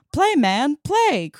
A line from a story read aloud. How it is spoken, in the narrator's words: cried the widow